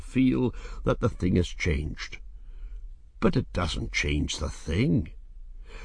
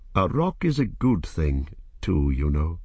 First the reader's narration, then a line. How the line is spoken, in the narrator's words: he said, speaking less gravely